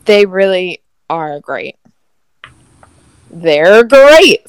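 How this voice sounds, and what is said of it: Bad Tony the Tiger impression. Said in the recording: “Tony the Tiger ... That was a terrible impression”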